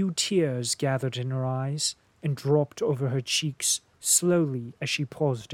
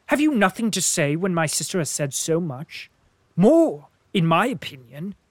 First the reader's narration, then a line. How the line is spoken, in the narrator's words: I interposed sharply